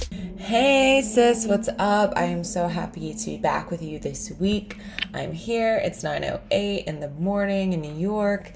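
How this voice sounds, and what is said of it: Raspy, deeper morning voice. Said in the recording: “my voice is raspier and a little deeper”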